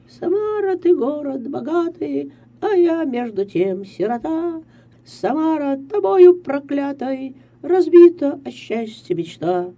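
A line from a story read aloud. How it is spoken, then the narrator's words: Cheerful singing. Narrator (Russian): запела веселым голосом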